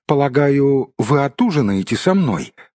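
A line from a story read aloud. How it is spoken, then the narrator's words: Most polite inquiry. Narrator (Russian): осведомился он самым вежливым тоном, на какой только был способен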